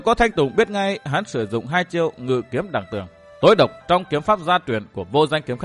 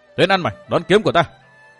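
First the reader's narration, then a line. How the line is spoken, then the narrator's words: Shout. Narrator (Vietnamese): hắn quát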